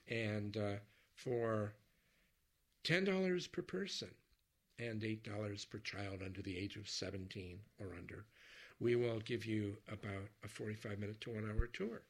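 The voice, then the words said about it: Hoarse voice. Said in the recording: “which is why I'm sounding so hoarse”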